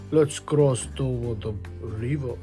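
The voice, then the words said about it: Big, deep storybook voice. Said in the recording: “said the big Billy Goat Gruff in his great big voice.”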